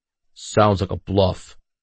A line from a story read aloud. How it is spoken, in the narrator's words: Haxor growled